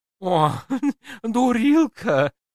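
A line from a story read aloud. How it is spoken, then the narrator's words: Forced out through snorting giggles. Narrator (Russian): не переставая похрюкивать и хихикать, выдавил из себя Базиль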